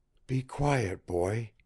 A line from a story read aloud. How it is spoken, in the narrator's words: he whispered